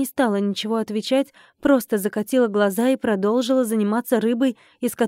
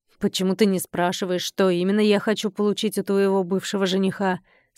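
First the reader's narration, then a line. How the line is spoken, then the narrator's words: Plain. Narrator (Russian): спросил Колин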